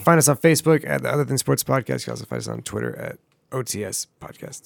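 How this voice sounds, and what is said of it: Hoarse, losing voice. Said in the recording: “my voice is... losing his voice”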